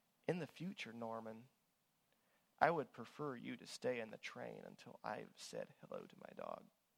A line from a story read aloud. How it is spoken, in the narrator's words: with a hurt look and said quietly